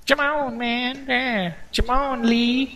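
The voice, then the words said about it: Imitates another person's voice. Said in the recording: “my Chris Tucker impersonation”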